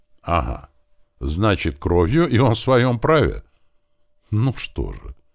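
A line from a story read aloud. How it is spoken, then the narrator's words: Calm. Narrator (Russian): спокойно проговорил сотник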